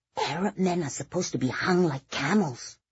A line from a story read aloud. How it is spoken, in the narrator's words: Lorena whispered back